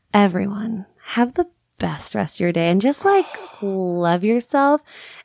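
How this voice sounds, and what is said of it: Exaggerated sexy, sultry voice. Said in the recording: “in my sexiest voice.”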